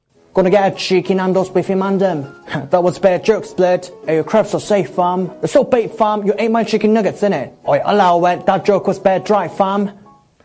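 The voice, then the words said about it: Put-on London roadman dialect. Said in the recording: “Roadman London dialect”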